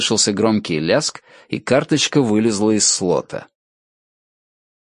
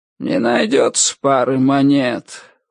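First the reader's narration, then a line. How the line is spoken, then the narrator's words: Tired drawl. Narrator (Russian): устало протянул кто-то за спиной Ричарда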